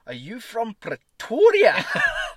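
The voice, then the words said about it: Twisted Afrikaans accent. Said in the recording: “in this like almost twisted Afrikaans accent”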